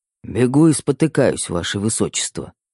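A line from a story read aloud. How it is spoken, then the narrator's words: Mumbling. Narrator (Russian): пробормотал Верняков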